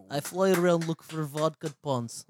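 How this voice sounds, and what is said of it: Bad put-on Russian accent. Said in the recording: “Another really bad impression. ... Do Russian or something. Do a Russian lion.”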